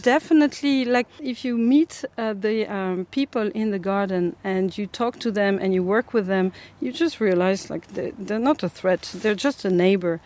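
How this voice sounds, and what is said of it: French accent. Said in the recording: “Your accent's not from the north inner city ... I speak French all the time, and so I have this accent.”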